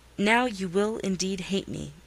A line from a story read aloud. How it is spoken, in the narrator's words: I said